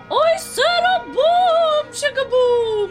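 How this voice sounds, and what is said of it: Operatic singing voice. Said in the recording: “In an opera voice!”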